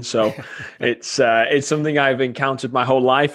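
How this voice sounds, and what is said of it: English accent with Wisconsin twang. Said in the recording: “originally from England ... everybody here thinks I'm Australian ... that blend of that Wisconsin twang with an English accent has formed this, what would be an Australian accent ... I do kind of hear a little Australian in there”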